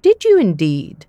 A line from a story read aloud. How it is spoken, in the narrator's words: said the doctor